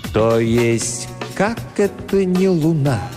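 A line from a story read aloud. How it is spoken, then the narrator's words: Slow, deliberate speech. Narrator (Russian): Он медленно произнес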